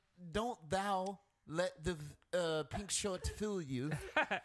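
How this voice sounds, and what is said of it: Put-on British accent. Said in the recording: “Do it in a British voice, though. Do it in a British voice.”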